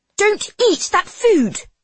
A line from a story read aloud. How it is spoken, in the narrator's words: Sophia barks at Claudine